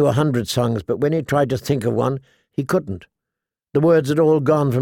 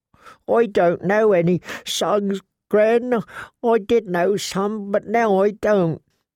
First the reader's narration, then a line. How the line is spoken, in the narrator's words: He sobbed again and said